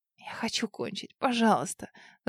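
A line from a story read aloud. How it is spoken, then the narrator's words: Breathless, whimpering gasp. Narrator (Russian): Задыхаясь и хныча, выдохнула я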